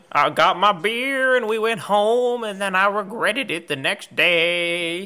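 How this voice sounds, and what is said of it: Mock country song delivery. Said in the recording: “my best impression right now of a country song”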